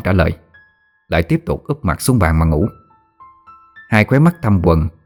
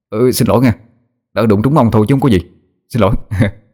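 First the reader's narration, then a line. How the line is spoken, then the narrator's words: Flustered, apologetic. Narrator (Vietnamese): Tôi rối rít nói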